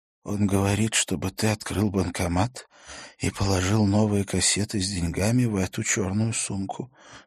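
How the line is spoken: Strained, choked voice. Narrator (Russian): сдавленным голосом сказала Стина

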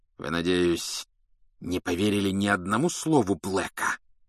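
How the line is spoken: Hissed. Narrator (Russian): прошипел он

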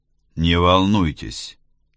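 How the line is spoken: Calm. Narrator (Russian): спокойно произнес Делглиш

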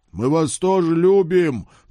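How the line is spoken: Shouting after fading ghosts. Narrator (Russian): прокричал я вслед тающим призракам

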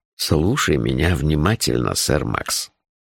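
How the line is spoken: Very soft but insistent. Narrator (Russian): очень мягко, но настойчиво сказал он

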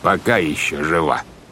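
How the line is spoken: Ominous tone. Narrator (Russian): добавил капитан Шем зловещим тоном

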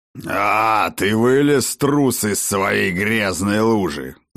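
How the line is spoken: Growled reply. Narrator (Russian): зарычал в ответ ему отец дружин

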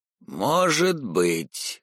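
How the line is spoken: Gloomy, through teeth. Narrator (Russian): сумрачно процедил Рама

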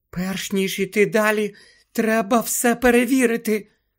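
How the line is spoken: Whisper. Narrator (Ukrainian): прошепотіла Герміона

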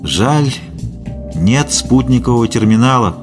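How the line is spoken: Sighing. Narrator (Russian): вздохнул стерляжий

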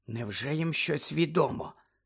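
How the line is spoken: Whisper. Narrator (Ukrainian): зашепотіла Герміона

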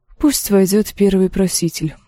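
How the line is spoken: Sighing. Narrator (Russian): вздохнула Дэнни

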